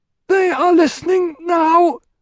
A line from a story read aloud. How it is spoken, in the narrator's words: Waf squeaked